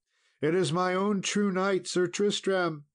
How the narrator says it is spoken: cried out La Belle Isoult

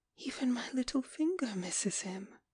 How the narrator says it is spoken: she whispered with a pitiful smile

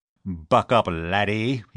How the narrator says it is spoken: he roared encouragingly

